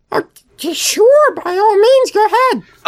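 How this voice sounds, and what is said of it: Elmo character voice. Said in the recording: “Oh, Elmo”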